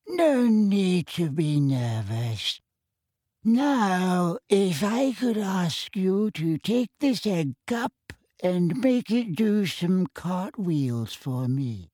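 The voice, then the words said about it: Quavery old man's voice. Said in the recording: “in his quavery old voice”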